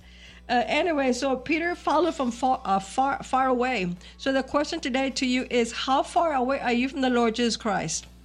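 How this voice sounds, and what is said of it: Slightly congested voice from cold. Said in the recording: “Excuse me for my voice. I have a little bit of a cold.”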